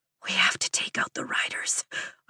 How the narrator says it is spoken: I whisper

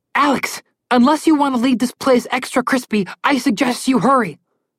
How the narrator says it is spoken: Connor yelled

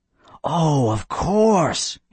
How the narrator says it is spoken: he cried

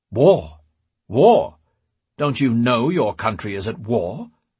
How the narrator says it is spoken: roared

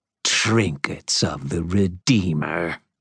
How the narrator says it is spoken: she snarled, her voice absolutely bubbling with hatred

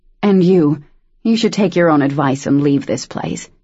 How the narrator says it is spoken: Daniel said grimly

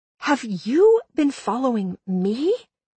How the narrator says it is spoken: I whispered back at my stalker

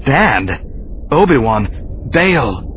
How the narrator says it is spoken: he said sharply

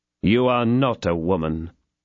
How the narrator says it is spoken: replied Athos coldly

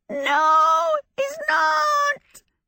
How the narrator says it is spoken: Calcifer screamed

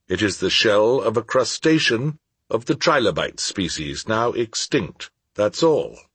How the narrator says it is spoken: he replied calmly

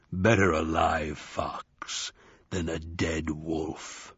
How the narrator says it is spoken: said Wednesday, in a voice so deep it was almost a growl

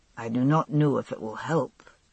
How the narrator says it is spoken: he said quietly

